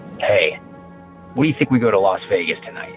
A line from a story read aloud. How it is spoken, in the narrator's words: I chuckle